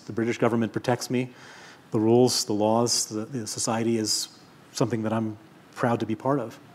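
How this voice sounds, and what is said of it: American accent. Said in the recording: “I still have a lot of American in me. You can hear it in my voice.”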